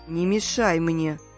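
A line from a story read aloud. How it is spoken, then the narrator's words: Angry reply. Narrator (Russian): злобно ответил Хемуль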